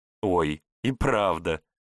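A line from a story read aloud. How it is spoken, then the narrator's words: Laughing girl. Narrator (Russian): Девчонка рассмеялась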